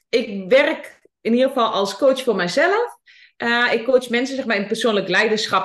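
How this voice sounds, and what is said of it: Twente regional Dutch accent. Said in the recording (Dutch): “mijn accent, mijn Twentse accent ... Ik woon dus in Hengelo. Nou, dat is dus het accent”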